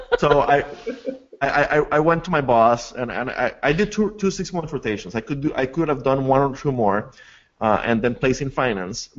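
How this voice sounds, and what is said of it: Non-native English accent. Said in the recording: “Sorry about my accent. I'm still working on it after this many years of speaking English. I got braces recently, so that's not helping.”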